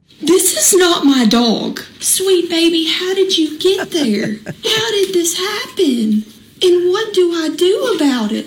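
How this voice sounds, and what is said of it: Speaks with a noticeable accent. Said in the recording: “It's the accent that gets you.”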